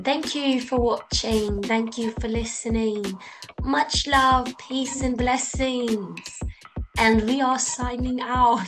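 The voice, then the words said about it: Put-on British accent. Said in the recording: “Maybe I'll revert back to my British accent.”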